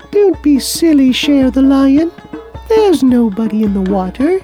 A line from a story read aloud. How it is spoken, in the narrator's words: a beautiful butterfly said in her tiny little voice